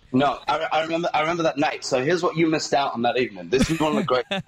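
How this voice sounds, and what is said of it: English accent. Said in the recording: “a lovely, lovely English accent”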